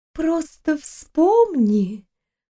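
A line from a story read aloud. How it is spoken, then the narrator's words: Singsong drawl. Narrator (Russian): нараспев протянула она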